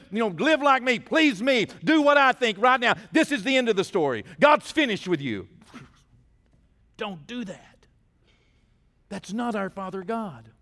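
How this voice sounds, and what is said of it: Loud, shouting preaching voice. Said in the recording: “I'm just preaching it loudly. Why do preachers scream? ... why am I being so loud”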